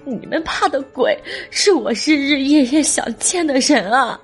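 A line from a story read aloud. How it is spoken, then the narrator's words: Weeping. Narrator (Chinese): 小胜跪下，抱着妈妈的头哭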